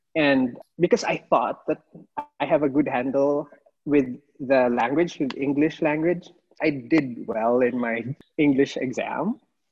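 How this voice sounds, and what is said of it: Non-native accented English. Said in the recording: “they don't understand my accent, and I have to repeat what I'm saying 3 times”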